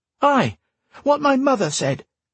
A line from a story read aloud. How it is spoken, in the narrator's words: Jig cried